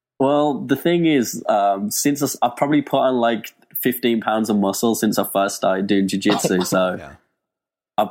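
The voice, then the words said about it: Birmingham English accent. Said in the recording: “that accent ... England, Birmingham, England”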